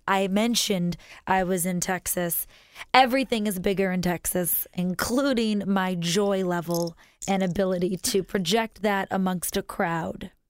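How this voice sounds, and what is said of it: Hoarse voice. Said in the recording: “forgive me for my hoarseness”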